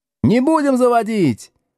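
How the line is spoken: Yelling from the back. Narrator (Russian): орали с задних парт

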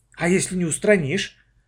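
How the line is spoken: Suddenly frightened. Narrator (Russian): вдруг испуганно сказала Маша

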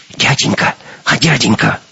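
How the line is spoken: Whisper. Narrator (Russian): шепот

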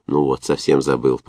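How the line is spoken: Muttered. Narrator (Russian): пробормотал он

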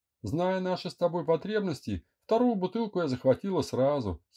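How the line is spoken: Giggling. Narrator (Russian): хихикнула Эля

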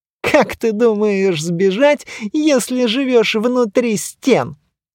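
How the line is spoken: Giggling. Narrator (Russian): хихикнул туман

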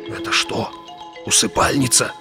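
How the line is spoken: Reverent whisper. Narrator (Russian): прошептал, с благоговением

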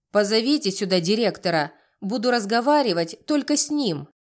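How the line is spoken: Barking. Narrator (Russian): рявкнула дама

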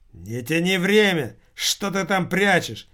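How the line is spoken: Barked. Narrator (Russian): рявкнул офицер

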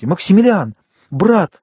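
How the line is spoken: Exclamation. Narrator (Russian): воскликнула она

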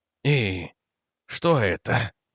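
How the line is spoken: Strained trembling voice. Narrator (Russian): выдавил он, и голос предательски дрогнул

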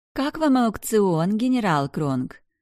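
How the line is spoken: Feigned sweet question. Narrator (Russian): спросила королева притворным голоском

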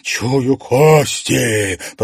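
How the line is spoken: Growl. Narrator (Russian): прорычала Василика

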